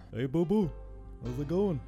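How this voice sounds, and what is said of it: Cartoon character voice. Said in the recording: “do an impression of one of the characters from one of the shows you worked on”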